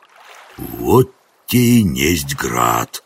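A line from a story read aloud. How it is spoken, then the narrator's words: Breathed out. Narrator (Russian): выдохнул Жихарь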